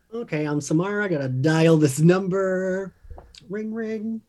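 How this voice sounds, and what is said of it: Australian accent. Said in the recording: “her accent came out... Australian... Almost an H2O accent”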